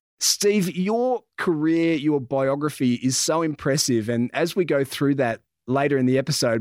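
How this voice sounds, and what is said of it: Australian accent. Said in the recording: “we were talking about the Aussie accent”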